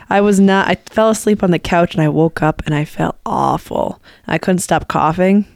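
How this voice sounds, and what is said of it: Husky, strained voice. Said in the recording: “My voice is not great ... Yesterday, I had some weird voice stuff going on ... Sounds like Scarlett Johansson right now ... It's my sexy voice”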